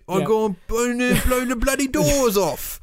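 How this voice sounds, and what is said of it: Bad put-on Cockney accent. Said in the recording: “his bad, ... his terrible, ... his Cockney accent.”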